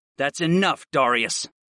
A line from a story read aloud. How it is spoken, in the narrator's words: I growled